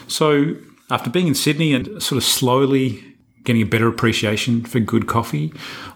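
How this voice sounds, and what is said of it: Australian accent. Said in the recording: “someone with an Australian accent”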